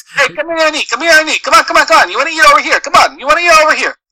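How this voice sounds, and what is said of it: Put-on Italian-American accent. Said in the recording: “I can't really do a very good Italian accent, but I try my hardest... every time I do it, I always sound like Joe Pesci”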